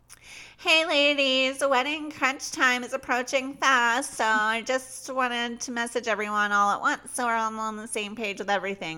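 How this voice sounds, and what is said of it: Annoying put-on voice. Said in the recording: “doing this annoying ass voice”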